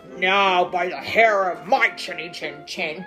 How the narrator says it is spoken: he roared

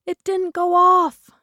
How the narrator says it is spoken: shrieked

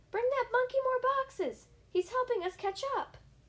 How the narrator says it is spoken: Someone noticed and yelled

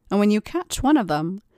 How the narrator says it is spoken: she laughs

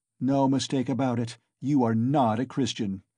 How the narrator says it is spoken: Many voices were shouting in the crowd

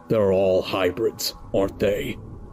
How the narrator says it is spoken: Arthur grunted

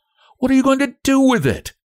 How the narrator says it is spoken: asked Frances sharply

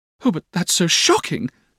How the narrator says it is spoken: cried Dora

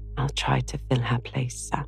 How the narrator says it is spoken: Joe whisper back

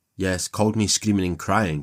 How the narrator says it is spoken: she shouted

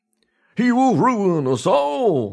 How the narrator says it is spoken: they shouted

